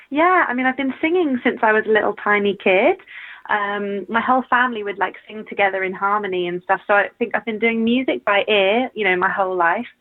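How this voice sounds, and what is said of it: British accent. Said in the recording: “I love British accents. So you're a very welcome Aww. Guest on this show.”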